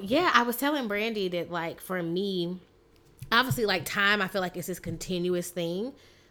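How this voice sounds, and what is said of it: Slightly raspy voice. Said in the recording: “my voice is a little raspy”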